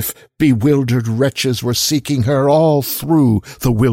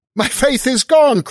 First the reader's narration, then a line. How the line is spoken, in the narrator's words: cried he after one stupefied moment